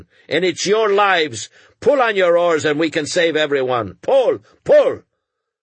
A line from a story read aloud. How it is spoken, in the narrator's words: cried